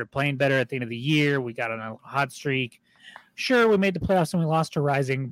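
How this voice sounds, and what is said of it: Hoarse, fading voice. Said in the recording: “my voice is just all of a sudden deciding to leave me”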